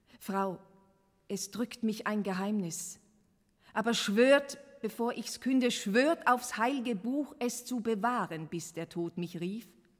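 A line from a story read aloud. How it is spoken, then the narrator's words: Loud call. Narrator (German): Laut rief er Miriam Lane und sagte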